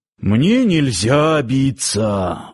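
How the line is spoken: Sighing. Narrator (Russian): вздохнул Парсыкин

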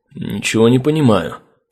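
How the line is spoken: Muttering. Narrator (Russian): пробормотал рейнджер

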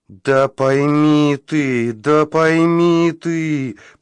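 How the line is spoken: Moaning voice. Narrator (Russian): простонал голос

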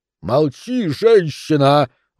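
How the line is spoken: Roaring. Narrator (Russian): взревел граф

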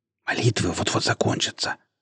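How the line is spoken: Whisper. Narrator (Russian): шепнула она

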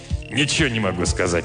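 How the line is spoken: Grumbling. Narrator (Russian): проворчал Димок

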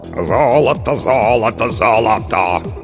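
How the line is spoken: Hoarse bass singing. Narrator (Russian): хриплым басом пропел Толик

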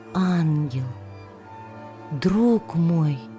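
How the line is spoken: Whispered, softly crying. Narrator (Russian): прошептала она и тихо заплакала

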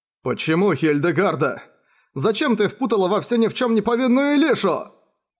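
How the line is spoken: Reproachful shout. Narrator (Russian): С укором прокричал Бен

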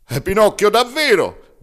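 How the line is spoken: Shout. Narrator (Italian): grida Pulcinella

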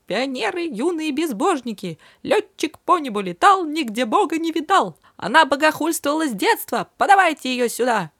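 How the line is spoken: Squeaky voice. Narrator (Russian): запищал

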